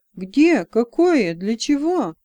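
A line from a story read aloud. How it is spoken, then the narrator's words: Impatient exclamation. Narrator (Russian): нетерпеливо воскликнул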